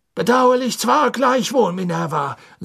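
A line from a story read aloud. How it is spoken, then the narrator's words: Loud speech. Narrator (German): sagte Cornelius Fudge laut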